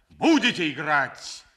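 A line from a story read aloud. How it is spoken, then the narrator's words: Loud shout. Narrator (Russian): Громким голосом крикнул граф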